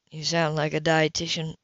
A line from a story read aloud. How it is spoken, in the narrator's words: Leo chuckled